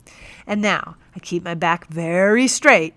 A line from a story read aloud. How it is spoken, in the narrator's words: he bellowed